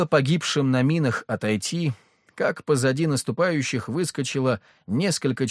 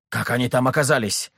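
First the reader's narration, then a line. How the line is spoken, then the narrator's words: Angry. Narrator (Russian): зло спросил Меньшиков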